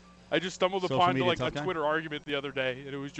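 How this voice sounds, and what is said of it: Usual voice. Nothing is said of it.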